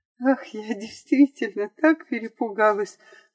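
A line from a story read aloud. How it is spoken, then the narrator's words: Tearful reply through a smile. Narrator (Russian): отвечала девушка, улыбаясь сквозь слезы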